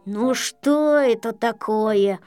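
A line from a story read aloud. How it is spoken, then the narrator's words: Grumble. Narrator (Russian): проворчал Ворчун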